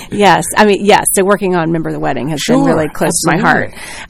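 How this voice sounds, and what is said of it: Slight regional accent. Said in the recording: “Now the little accent comes out a little bit.”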